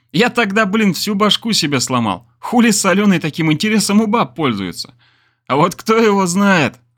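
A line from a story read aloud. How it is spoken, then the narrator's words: Laughing. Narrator (Russian): рассмеялся я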